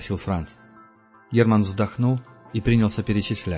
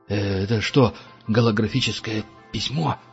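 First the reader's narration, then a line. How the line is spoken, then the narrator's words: Forced out, strained. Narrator (Russian): выдавил Франц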